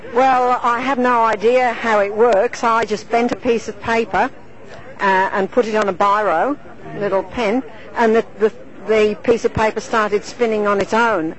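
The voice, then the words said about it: English accent mixed with Australian. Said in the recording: “You have an interesting accent. ... I was born in England, but I live in Australia. ... English accent mixed with Australia.”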